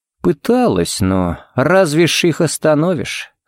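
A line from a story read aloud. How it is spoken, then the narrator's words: Sighing. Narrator (Russian): Харри вздохнул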